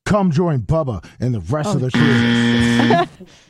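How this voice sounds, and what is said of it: Confident authoritative announcer voice. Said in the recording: “You sound like Justin Clark. ... That's the announcer voice you wanted. ... it's got to be authoritarian but yet confident and announcer-like.”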